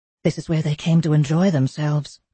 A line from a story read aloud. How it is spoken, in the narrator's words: Theodora said, and her voice echoed shakily from the high ceiling